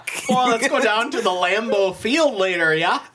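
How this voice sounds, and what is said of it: Exaggerated mock Midwestern accent. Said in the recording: “That was closer. ... lampooned the Midwest accent”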